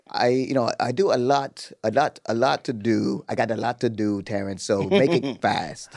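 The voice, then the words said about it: Imitates another person's voice. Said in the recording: “How you do a British accent? ... Oh, what's going on with your Idris Elba, man?”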